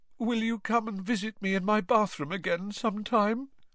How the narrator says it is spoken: Moaning Myrtle asked mournfully

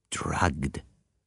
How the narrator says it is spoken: he murmured

